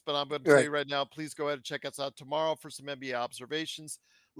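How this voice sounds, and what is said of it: Voice going hoarse. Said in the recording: “losing my voice”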